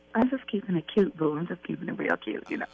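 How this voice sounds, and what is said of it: Whispering, very low voice. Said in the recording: “why do you sound like you're whispering right now? ... You go any lower, you sound like you're talking to yourself.”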